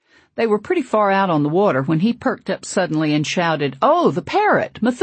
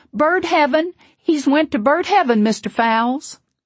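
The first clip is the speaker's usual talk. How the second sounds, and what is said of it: Small, thin child's voice hollering. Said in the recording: “hollered out in her puny little voice”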